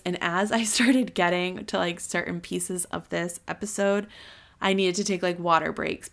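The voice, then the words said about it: Losing voice, hoarse. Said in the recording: “I'm losing my voice.”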